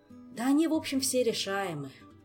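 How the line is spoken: Sighing. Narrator (Russian): вздохнул Шелар III

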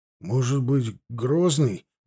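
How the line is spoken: Uncertain. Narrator (Russian): неуверенно сказал Пинчук

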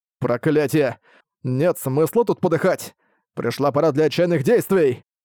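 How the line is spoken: Desperate yell. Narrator (Russian): изо всех сил, завопил

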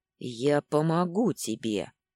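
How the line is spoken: Very quiet, no hiss. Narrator (Russian): без шипения произнес Дагейра, правда, очень тихо, едва ли его слова можно было разобрать кому-то еще, кроме меня

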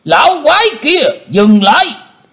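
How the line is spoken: Thunderous roar. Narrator (Vietnamese): Một giọng quát tở trời gầm phát ra từ miệng của Tử Diễn Côn Luân

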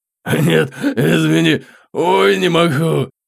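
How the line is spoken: Roaring laughter. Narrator (Russian): хохотал Кратхан

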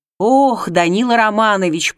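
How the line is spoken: Near moan. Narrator (Russian): почти простонал он

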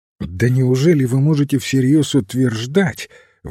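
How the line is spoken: Incredulous exclamation. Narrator (Russian): воскликнул Андерхилл с недоверием

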